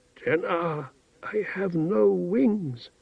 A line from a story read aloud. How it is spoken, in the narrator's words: He said in a faint, hoarse voice